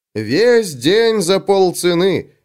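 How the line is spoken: Yelling. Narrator (Russian): вопила она

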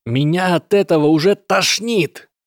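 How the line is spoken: Shouted. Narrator (Russian): крикнул Лайон О

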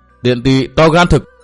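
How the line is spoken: Furious shout. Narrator (Vietnamese): Thiên Tứ cả giận quát

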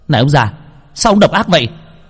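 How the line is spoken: Angry accusation. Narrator (Vietnamese): Truyền nhân của Khang biến sắc, quay lại tức giận

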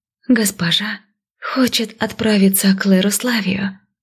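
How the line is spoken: Timid hopeful. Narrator (Russian): робко сказала, с надеждой

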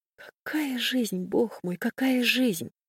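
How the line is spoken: Continued whispering. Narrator (Russian): Продолжала шептать Хеся

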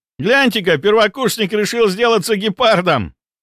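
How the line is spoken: Joyful student shouting, laughing. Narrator (Russian): радостно закричал студент и весело рассмеялся

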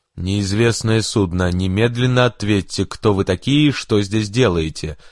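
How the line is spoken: Angry booming radio voice. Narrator (Russian): Прогремел на открытой волне чей-то сердитый голос

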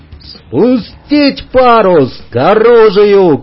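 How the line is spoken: Shouted. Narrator (Russian): крикнул

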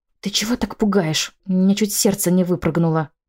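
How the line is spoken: Angry hiss. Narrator (Russian): Я злобно прошипела на Фредерика

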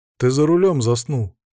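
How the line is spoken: Calm. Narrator (Russian): спокойно сказал я

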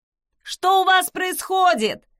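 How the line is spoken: Yell from above. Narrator (Russian): заорал кто-то сверху

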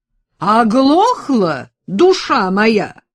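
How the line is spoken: Thundering. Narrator (Russian): прогремела тетя Сатина

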